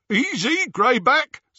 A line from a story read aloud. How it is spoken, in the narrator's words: said, over the jeering of the others